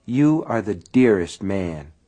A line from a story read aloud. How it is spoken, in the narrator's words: she said quietly